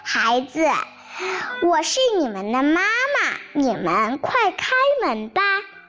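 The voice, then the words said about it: Hoarse wolf voice posing as mother. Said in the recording (Chinese): “沙哑的声音说”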